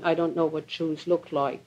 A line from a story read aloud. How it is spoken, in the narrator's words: the farmer calmly replying